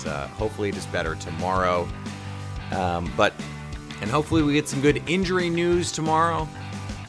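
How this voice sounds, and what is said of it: Hoarse, froggy voice. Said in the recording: “I'm, I'm a little under the weather, so my voice is a little froggy”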